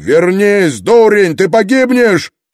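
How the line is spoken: Shout. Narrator (Russian): крикнул Строн

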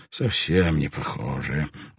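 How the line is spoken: Weary. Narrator (Russian): устало изрек Деляква

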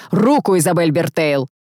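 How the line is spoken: Near growl. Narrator (Russian): почти прорычал

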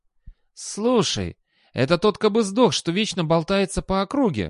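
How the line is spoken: Exclaimed. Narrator (Russian): воскликнул человек

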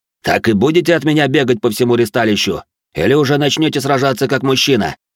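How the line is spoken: Barked. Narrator (Russian): Рявкнул он

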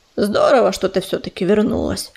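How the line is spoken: Muttered. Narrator (Russian): пробормотал он

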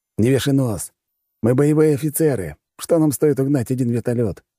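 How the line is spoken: Smirking. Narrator (Russian): усмехнулся он

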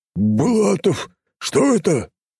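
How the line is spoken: Growl while struggling up. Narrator (Russian): прорычал он после нескольких попыток все же подскочить на ноги

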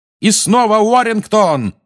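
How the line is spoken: Yelling. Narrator (Russian): орал Ли

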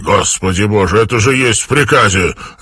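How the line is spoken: Barking. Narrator (Russian): рявкнул Армстронг

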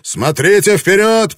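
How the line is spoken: Shout. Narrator (Russian): прокричал Блэкторн

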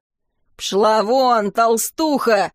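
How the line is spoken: Robber's growl. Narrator (Russian): прорычал разбойник

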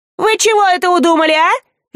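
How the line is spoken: Shrill furious scream. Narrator (Russian): визгливо заорала она

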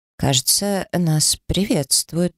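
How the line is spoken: Uncertain. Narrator (Russian): неуверенно произнесла Гарра

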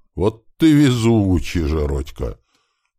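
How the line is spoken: Drawling. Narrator (Russian): протянул напарник

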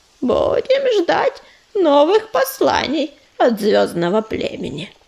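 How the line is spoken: Creaky voice. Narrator (Russian): проскрипел Корявый

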